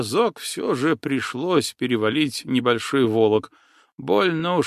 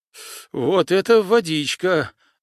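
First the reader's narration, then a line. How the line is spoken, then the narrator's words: Joyful, shivering girl. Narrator (Russian): радостно дрожала от холода рыженькая Аврама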